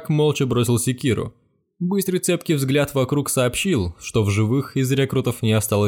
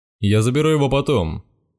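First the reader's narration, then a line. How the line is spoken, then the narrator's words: Menacing promise. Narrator (Russian): пообещал он грозно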